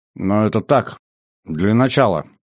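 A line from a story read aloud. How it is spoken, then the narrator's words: Grunted. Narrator (Russian): буркнул Всеволод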